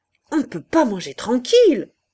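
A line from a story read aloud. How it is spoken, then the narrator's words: General shouting abruptly. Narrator (French): cria brusquement le général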